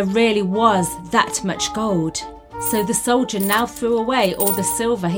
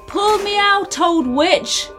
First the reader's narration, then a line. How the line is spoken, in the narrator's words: shouted up